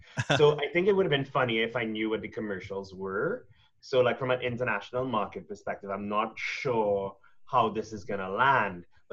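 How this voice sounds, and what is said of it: Trinidadian accent. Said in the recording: “I'm from Trinidad, in case you missed the accent.”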